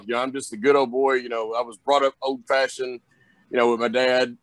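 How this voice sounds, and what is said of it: Southern accent, Southern drawl. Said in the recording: “I sound like I'm from the South ... I've got that Southern accent, that Southern drawl”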